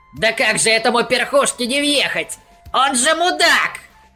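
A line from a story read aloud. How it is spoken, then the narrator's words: Squeaked, miller. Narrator (Russian): Запищал мельник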